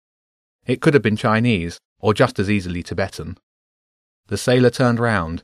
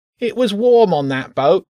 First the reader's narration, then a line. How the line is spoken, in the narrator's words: the rat whined